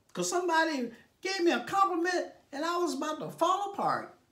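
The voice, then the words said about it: Silly put-on voice. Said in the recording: “Why he got to talk like that? ... that was my silly voice.”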